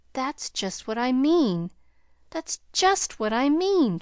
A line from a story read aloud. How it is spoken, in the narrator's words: triumphed Pollyanna excitedly